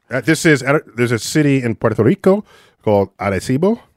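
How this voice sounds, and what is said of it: Put-on Spanish-style pronunciation. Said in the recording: “You like my accent?... Muy bueno, muy bueno.”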